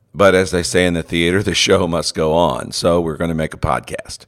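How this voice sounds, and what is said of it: Heavily congested voice. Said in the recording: “my voice is heavily congested today”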